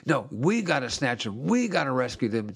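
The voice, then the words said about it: Fired-up, impassioned preaching. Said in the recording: “you can hear it in my voice. I'm kind of fired up”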